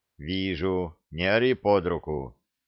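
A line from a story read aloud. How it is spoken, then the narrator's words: Calm reply. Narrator (Russian): спокойно ответил Саша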